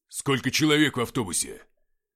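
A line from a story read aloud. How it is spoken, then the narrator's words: Sudden sharp bark. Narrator (Russian): неожиданно рявкнул Игнат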